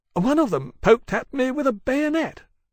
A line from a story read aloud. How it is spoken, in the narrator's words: Chalcedony complained indignantly